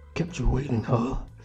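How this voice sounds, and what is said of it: Impression of a video game character. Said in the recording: “Give me your best impression of your favourite game character ... It's my best one.”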